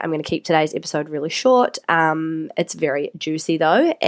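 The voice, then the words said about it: Congested, sick-sounding voice. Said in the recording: “coughing and blocked noses ... My voice is okay, but I'm sounding all gross.”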